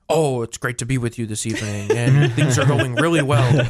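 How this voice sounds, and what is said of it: Stiff formal presidential voice. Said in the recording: “his presidential impersonation.”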